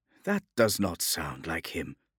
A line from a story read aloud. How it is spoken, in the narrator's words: murmured Odilio to Adalus